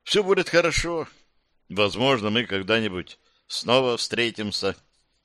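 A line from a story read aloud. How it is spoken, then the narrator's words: Encouraging, hiding bitterness. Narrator (Russian): ободряюще улыбнулся, стараясь скрыть поступающую горечь нового расставания, добавил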